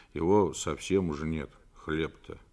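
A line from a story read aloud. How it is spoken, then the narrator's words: Grumbling mutter. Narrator (Russian): Федя пробурчал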